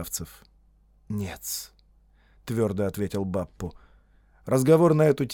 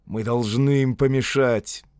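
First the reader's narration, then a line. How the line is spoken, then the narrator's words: Irritated curt remark. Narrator (Russian): бросил раздраженно Додд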